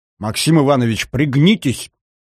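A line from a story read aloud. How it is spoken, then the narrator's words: Urgent shout. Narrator (Russian): Не выдержав, крикнул один из ближайших офицеров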